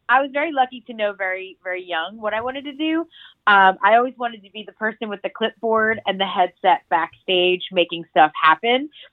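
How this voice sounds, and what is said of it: Congested, nasal voice from cold. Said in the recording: “I have a cold ... I'm all stuffed up, so sorry if I sound very nasally, because I don't usually sound like this.”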